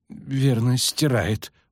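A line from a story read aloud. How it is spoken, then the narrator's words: Grumbling. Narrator (Russian): буркнул Ленеп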